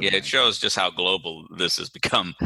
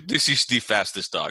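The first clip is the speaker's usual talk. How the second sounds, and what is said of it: Put-on Russian accent. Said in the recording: “this accent ... it's a Russian who's breeding greyhounds.”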